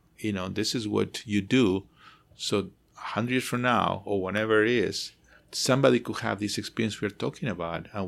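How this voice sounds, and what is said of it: Foreign accent, not American-born. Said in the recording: “as you hear my accent i mean I'm, i was not Ameri- born american”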